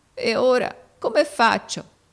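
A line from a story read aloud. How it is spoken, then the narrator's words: Sobbing question. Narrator (Italian): domandò con un singhiozzo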